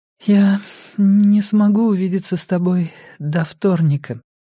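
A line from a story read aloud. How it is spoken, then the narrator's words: Trembling, doubtful voice. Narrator (Russian): сказала Беа дрожащим голосом, будто сомневаясь в моем желании видеться с ней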